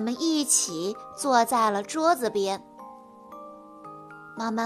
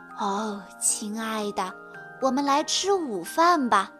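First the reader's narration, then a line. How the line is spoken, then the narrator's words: Gentle sigh. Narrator (Chinese): 奶奶轻轻地叹了口气，说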